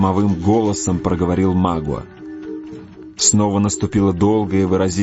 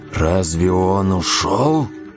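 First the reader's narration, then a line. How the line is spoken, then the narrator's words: Deep guttural voice. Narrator (Russian): спросил Магуа глубоким, гортанным голосом, как бы выходившим из самой глубины груди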